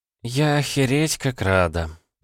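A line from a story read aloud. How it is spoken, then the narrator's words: Sad sigh. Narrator (Russian): печально вздохнула Кирана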